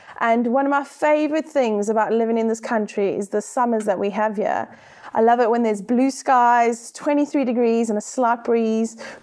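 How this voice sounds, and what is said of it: South African accent. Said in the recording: “I am South African, as you can hear by my accent.”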